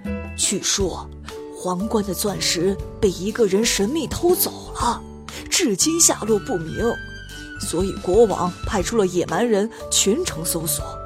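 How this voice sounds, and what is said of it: Quiet, hushed explaining. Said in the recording (Chinese): “声音小一点...小声的解释道”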